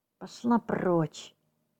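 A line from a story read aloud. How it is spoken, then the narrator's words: Through gritted teeth. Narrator (Russian): сквозь зубы процедил Тед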